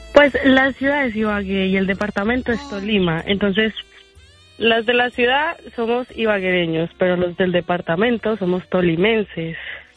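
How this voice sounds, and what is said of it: Pleasant Colombian accent from Tolima. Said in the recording (Spanish): “De la ciudad de Ibagué. ... Ay, qué bonito acento tienes. ... ¿por qué todas las mujeres allá de Colombia tienen un tono así tan bonito?”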